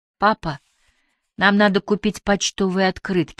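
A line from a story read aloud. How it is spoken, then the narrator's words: Plain. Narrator (Russian): сказала она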